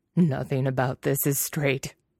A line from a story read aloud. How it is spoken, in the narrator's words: Nie Mingjue wheezes